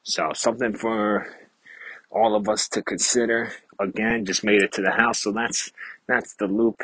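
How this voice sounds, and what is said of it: Slightly out of breath. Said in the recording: “If you can hear, I'm a little out of breath.”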